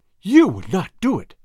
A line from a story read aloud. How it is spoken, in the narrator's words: cried the girl